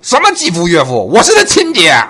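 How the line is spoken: Furious outburst. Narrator (Chinese): 对方勃然大怒

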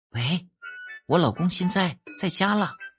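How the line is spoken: Whisper. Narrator (Chinese): 这个老婆呀就…小声的说

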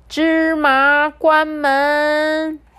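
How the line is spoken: Loud shout. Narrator (Chinese): 阿里巴巴 又大声的喊

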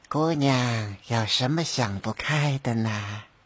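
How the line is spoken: Old nun sighing. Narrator (Chinese): 唉，老尼叹息道

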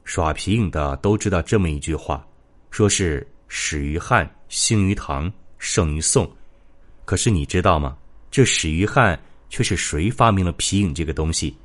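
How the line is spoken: Slow, with a smile. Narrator (Chinese): 黄先生这时笑了一下，缓缓说道

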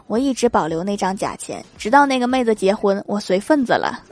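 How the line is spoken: Sighing. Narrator (Chinese): 那个师兄叹了一口气说

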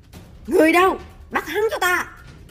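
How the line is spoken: Commanding shout. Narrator (Vietnamese): Lão quát chúng quan sai

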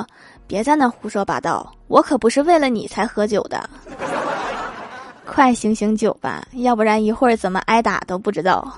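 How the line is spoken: Flat, indifferent. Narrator (Chinese): 郭大侠淡淡的说

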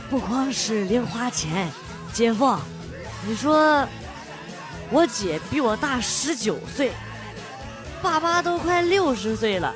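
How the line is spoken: Child's hushed voice. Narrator (Chinese): 这孩子压低声音说

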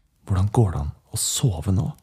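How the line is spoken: Hoarse whisper. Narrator (Norwegian): Henrik hvisket hest tilbake

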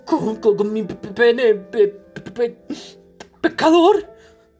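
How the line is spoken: Stammering, faint, astonished voice. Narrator (Spanish): tartamudeó, voz desfalleciente y expresión de pasmo, el acusado

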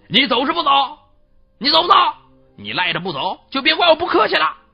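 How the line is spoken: Loud demanding question. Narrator (Chinese): 鲁丹琴的父亲高声问道

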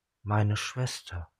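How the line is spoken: Quiet. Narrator (German): sagte Kiora leise

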